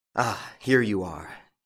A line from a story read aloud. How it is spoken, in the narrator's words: he said with a sigh of relief